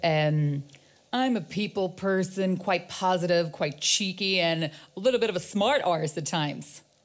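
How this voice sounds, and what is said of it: Impression with an American accent. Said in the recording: “He's American, born in America. And he has an American accent. ... See, a very good impression.”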